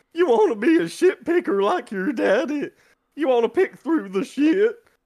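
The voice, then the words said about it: Hillbilly accent, Paradise PD's Daddy. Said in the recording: “I'm trying to work on my accents ... the Daddy ... You know the hillbilly. He's the hillbilly's dad.”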